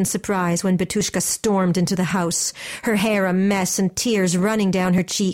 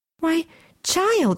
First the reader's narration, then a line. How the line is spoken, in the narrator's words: she said excitedly